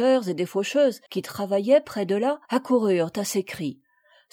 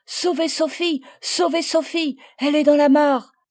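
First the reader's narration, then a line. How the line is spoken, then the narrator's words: Shouting. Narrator (French): criait Marguerite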